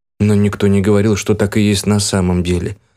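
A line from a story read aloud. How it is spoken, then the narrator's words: Calm demoness reply. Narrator (Russian): спокойно ответила демонесса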